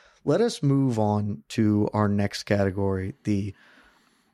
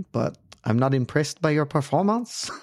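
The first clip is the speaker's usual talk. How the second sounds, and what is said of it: George St. Pierre impression. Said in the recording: “I'm not good at the impression ... the George St. Pierre”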